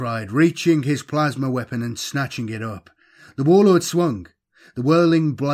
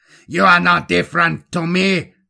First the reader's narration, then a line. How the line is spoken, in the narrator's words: the warlord shrieked